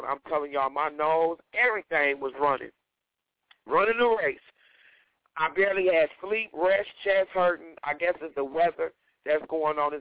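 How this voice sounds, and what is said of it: Congested voice from a cold. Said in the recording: “y'all have to excuse how I'm sounding today. I have a bad cold.”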